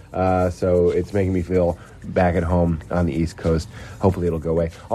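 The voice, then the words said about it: Sick-sounding voice. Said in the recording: “I am sick. I don't know if you can hear in my voice.”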